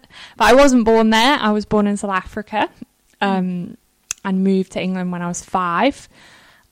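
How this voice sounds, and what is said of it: Northern English accent. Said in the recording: “I am from up north. ... We can tell a little ... You can tell from my accent.”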